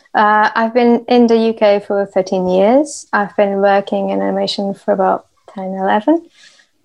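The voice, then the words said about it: Portuguese accent. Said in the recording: “I am Portuguese, you might notice by the accent.”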